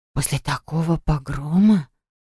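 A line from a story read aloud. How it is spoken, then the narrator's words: Whisper. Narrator (Russian): прошептала Харриет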